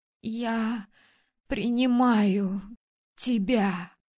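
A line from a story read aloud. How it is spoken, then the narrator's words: Trembling voice. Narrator (Russian): произнесла дрожащим голосом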